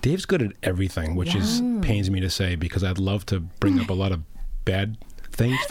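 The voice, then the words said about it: Deep smooth radio voice. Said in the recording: “you have like a radio voice”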